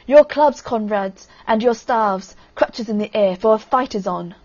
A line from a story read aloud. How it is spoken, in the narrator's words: Ivan shouted